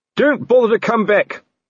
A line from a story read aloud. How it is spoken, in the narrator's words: Colon shouted after them